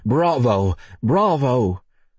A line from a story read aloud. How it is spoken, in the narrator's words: Across the street, a man shouted